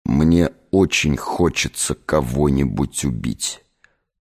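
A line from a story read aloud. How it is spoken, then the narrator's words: Through gritted teeth. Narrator (Russian): процедил Гессер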